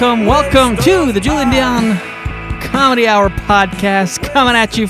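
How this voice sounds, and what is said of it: Usual voice. Nothing is said of it.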